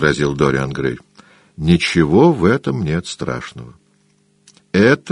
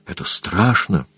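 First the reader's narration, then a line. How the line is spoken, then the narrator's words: Shuddering whisper. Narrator (Russian): прошептал он, вздрогнув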